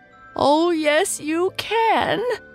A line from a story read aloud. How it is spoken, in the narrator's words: sobbed Dave